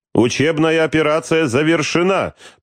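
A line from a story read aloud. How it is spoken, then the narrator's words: Shouted. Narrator (Russian): прокричал береговой подполковник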